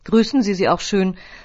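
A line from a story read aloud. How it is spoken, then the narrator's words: Plain. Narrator (German): sagte sie noch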